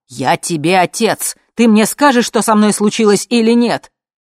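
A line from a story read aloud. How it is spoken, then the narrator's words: Hysterical shouting. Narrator (Russian): муж звонил ей с истериками и кричал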